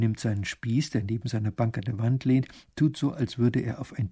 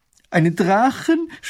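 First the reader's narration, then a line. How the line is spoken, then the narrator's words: Horrified scream. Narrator (German): schreit Mathilde entsetzt auf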